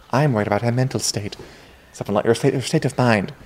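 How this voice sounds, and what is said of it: Conleth Hill impression as Varys. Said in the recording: “great Conleth Hill impression”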